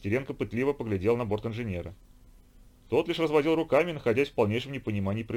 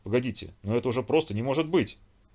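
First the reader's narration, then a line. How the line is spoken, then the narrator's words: Exclamation. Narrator (Russian): воскликнул Василий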